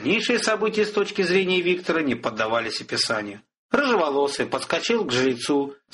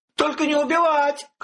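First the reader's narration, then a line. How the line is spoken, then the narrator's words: Innkeeper shouting. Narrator (Russian): кричал трактирщик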